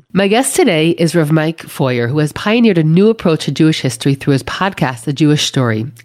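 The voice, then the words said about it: Congested, stuffy-nosed voice. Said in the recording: “I had a terrible cold ... I can't seem to shake this cold ... congestion and all”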